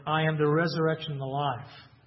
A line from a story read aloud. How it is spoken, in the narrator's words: he says